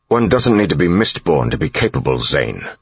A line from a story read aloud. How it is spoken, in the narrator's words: snapped